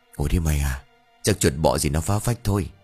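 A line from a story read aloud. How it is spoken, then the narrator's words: Tired mumbling. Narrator (Vietnamese): Mệt mỏi, Tín lẩm bẩm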